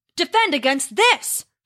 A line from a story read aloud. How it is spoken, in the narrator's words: Thor roared